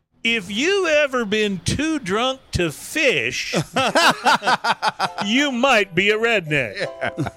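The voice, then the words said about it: Jeff Foxworthy impression, redneck drawl. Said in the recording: “I will even do my best to do a sort of a half-assed Jeff Foxworthy impersonation for you. Or impression.”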